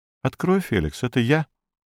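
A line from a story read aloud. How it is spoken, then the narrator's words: Quiet female voice. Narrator (Russian): отзывается негромко женский голос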